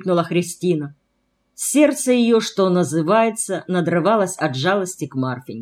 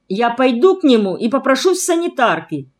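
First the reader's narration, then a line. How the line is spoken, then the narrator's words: Exclaiming. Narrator (Russian): воскликнула Христина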